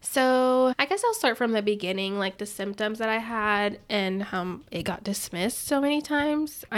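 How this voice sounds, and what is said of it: Congested, stuffy-nosed voice. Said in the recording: “excuse my voice. I'm a little congested”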